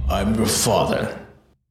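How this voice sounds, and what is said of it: Low, asthmatic Darth Vader voice. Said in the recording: “my Darth Vader impression... That's way too low... Asthmatic impression there. Great impression.”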